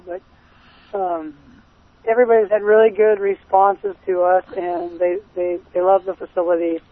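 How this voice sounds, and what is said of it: Slightly hoarse voice. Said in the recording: “You sound like you're a little bit hoarse. ... That's 2 days of talking.”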